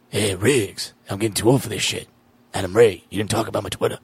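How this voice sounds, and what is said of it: Low, deep, gravelly imitation of another person. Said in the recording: “That's actually pretty good. Danny Glover might be one of those impressions ... you got to just get low, deep, and gravelly ... do your Danny Glover again”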